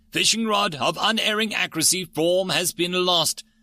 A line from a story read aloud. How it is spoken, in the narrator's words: Gamma grumbled